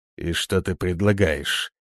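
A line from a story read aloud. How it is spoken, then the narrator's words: Cold tense question. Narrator (Russian): наконец спросил он холодно и напряженно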